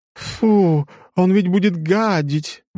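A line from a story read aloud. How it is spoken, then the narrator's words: Exclaiming. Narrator (Russian): воскликнула какая-то баронесса из толпы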